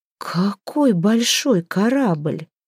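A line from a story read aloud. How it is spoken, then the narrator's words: Admiring drawl. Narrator (Russian): протянула она, восхищенная этим зрелищем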